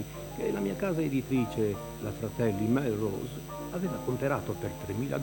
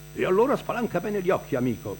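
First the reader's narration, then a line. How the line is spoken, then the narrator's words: Shouting. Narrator (Italian): continua a gridare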